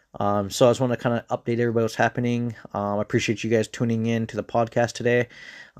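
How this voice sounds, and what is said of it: Tired, exhausted-sounding voice. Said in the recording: “I don't know if you guys can even tell in my voice. I'm a little tired, a little exhausted.”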